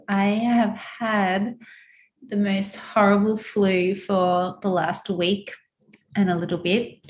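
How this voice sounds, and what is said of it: Husky, croaky voice. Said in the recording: “my voice is a little bit huskier than normal ... my voice has been really croaky”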